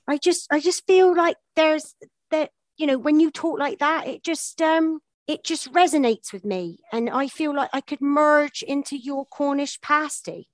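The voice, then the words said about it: Put-on Cornish accent. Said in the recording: “That was me doing a Cornish accent.”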